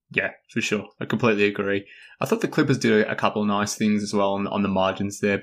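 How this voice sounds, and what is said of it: Australian accent. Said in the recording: “I am Australian, based on my accent”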